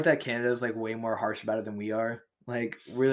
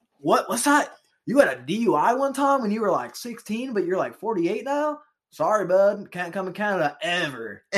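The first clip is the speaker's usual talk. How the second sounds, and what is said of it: Canadian twang in a bro accent. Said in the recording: “inject some Canadian twang into that bro accent”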